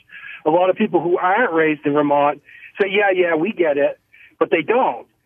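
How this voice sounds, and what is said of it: Vermont accent. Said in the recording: “may I infer from your accent that you grew up in Vermont, that you are a Vermonter?”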